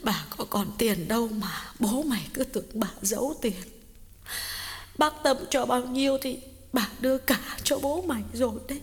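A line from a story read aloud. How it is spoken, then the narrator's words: Sniffling, tearful. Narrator (Vietnamese): Bà Cảnh sụt sùi nói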